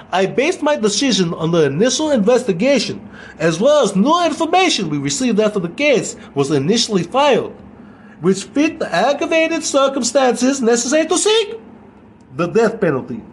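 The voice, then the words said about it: Put-on Russian accent. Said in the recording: “I'm going to say it in a Russian accent”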